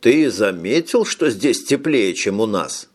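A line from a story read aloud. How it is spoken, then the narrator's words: Plain. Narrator (Russian): спросил Данлоп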